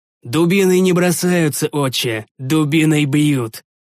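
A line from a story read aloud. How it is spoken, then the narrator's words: Plain. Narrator (Russian): ответил я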